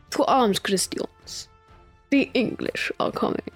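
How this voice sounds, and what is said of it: Deliberately bad Spanish accent. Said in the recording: “The best Spanish accent I've ever had... I got worse with every word... That's not meant to be Spanish anymore.”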